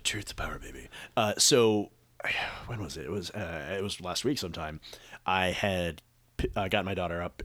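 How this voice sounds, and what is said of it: Hoarse voice from laryngitis. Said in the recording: “that's my laryngitis”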